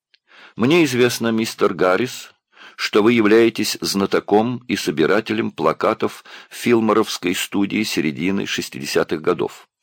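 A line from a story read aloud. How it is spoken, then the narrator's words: Plain. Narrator (Russian): сказал он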